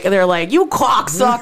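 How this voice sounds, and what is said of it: Put-on Boston accent. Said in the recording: “that's the only thing I can do in a Bob and Boston accent.”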